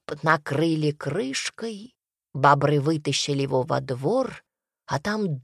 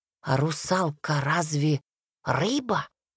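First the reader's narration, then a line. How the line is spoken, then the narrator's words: Whisper. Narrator (Russian): прошептал Василий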